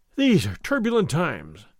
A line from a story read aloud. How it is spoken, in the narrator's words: Don Diego continued, sighing